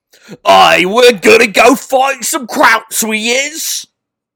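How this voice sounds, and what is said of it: Exaggerated working-class London accent. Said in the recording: “my impression of every single British soldier from World War One and Two ... like the most peasant London accent ever”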